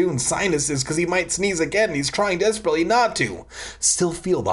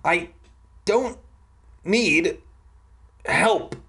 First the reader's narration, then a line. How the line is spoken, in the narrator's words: I replied through gritted teeth